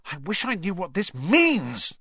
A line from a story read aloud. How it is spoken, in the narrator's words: he burst out angrily